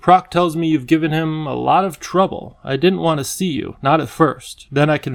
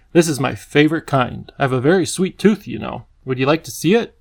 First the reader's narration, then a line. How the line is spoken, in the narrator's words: he asked Lindy